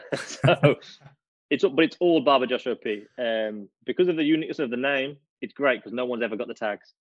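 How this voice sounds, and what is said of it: British accent. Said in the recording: “the accent alone, we've said this, it's so unfair. The folks from the UK have it on us every time”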